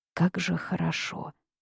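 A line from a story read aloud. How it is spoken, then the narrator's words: Whispered. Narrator (Russian): снова прошептал Тяньяо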